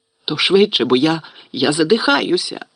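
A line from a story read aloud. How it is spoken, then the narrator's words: Wheezed. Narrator (Ukrainian): прохрипів Гаррі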